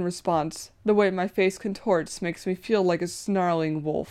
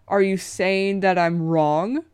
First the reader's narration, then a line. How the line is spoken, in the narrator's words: I snarl